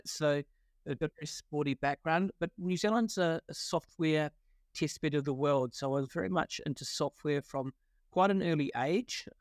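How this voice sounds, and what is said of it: New Zealand accent. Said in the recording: “you hear this sort of wonderful Kiwi accent.”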